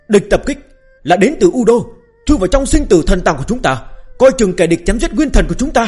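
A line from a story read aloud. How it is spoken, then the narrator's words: Alarmed, angry shout. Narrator (Vietnamese): gã ta giống như cảm nhận được điều gì đó, giận dữ hét lên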